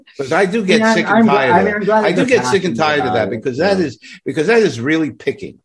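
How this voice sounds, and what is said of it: Brooklyn accent. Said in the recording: “my Brooklyn accent”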